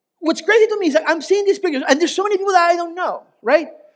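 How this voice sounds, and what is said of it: Ecuadorian-accented English. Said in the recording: “the Ecuadorian guy with the funny accent”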